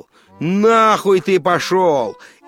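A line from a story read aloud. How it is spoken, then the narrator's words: Shouting. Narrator (Russian): крикнул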